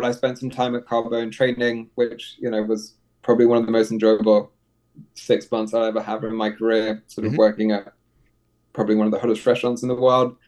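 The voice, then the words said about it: English accent. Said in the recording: “You've got the English accent.”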